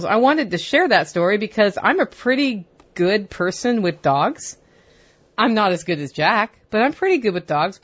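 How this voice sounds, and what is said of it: Excited, amped-up voice. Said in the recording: “you can hear it in my voice, I'm amped up”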